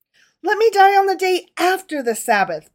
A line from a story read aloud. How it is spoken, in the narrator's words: pleaded David